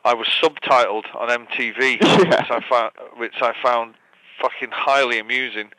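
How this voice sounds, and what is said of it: Manchester English accent. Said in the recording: “So you're from Manchester. So tell me the first Manchester thing about you. ... My accent.”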